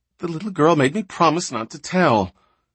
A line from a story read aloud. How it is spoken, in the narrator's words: She whimpered